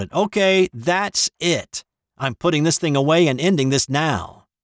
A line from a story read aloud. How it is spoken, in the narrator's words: Joanne shouted